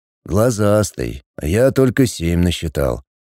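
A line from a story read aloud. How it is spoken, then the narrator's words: Sigh. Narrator (Russian): вздохнул Миша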